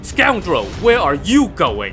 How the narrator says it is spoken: Lin Chong roared

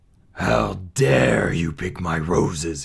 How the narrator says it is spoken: he snarled

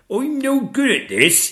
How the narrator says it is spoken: he cried

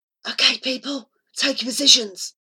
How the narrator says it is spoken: whispered Flora dramatically

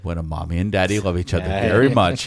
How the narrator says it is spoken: he calmly said

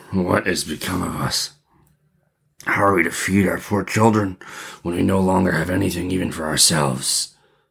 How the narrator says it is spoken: He groaned and said to his wife

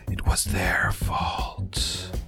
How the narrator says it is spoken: you hear these two incorporeal undead, like in their spooky whisper, go

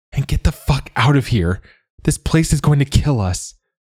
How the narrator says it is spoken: she panted, her voice hoarse

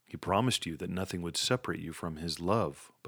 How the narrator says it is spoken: Buck replied

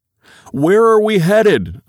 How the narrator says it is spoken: yell

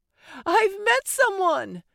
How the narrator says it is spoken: Kristen exclaimed

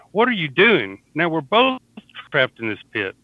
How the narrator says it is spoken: John exclaimed

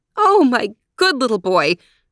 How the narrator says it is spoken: cried Mommy

